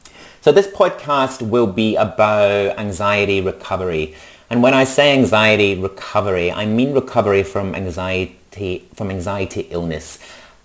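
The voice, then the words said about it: Mixed Scottish and Australian accent. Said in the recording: “Scottish originally, now living in Australia... it's a bit of a mix of Scottish and Australian”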